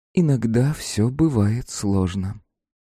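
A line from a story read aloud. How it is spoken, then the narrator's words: Sighing. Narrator (Russian): та вздохнула, сказала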